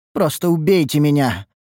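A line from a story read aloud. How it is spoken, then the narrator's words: Exhausted moan. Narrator (Russian): простонала измученная Амаранте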